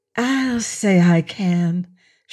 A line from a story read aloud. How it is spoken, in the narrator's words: she breathed